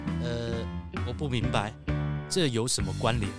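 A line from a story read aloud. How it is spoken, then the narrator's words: Plain. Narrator (Chinese): 这仙人就继续说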